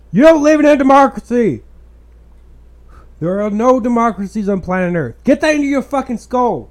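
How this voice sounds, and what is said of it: Angry yelling. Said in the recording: “I'm not yelling at you, listener. I'm yelling at this person on the screen.”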